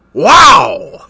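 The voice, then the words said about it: Loud cartoon character damage yelp. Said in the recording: “That's my Wario impression for whenever he takes damage in Wario World ... Ear warning, folks”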